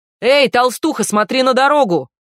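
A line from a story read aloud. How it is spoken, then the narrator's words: Youth shouting from car. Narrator (Russian): крикнул из автомобиля парнишка с обесцвеченными волосами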